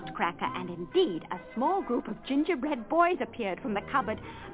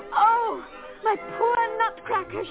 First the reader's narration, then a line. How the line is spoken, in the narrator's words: she sobbed